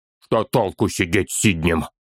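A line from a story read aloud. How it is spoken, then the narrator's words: Angry spat remark. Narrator (Russian): Зло плюнул Торин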